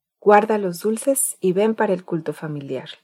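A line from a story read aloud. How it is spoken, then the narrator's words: Plain. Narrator (Spanish): le dijo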